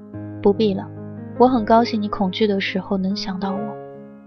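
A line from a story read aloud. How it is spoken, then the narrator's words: Suddenly softer. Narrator (Chinese): 声音突然轻柔下来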